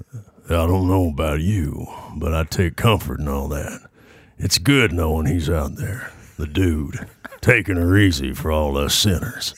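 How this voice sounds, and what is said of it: Imitates another person's voice, slightly southern. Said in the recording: “have you ever ... thought you sounded like Sam Elliott ... Sam Elliott impersonation ... Try a little Sam Elliott ... Little little southern”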